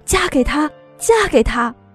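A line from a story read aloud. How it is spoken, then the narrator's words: Excited shouting girl. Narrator (Chinese): 叫得最欢的是站在胖头身后的姑娘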